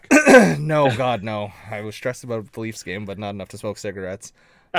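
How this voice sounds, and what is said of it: Hoarse, raspy voice. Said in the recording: “my voice is like, I'm still trying to clear it up a bit ... You sound like you smoked a pack.”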